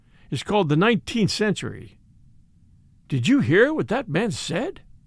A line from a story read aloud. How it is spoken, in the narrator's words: said Strickland, very calmly